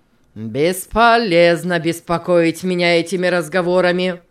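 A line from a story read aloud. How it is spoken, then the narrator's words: Rude objection. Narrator (Russian): грубо возразил тот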